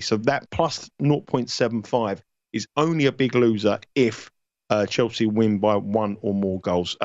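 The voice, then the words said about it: London accent. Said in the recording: “you can't understand my London accent”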